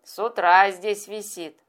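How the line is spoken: Giggle with loud hiccup. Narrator (Russian): Хихикнул он и громко икнул

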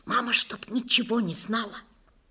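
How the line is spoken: Whisper. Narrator (Russian): шепнула Надя

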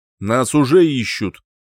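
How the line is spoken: Sharp interruption. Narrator (Russian): резко оборвал меня

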